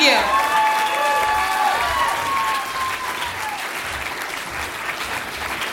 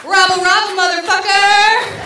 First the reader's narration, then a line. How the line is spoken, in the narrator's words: And yell